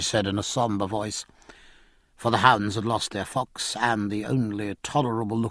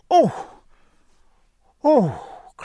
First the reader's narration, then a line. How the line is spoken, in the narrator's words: cried Cecilia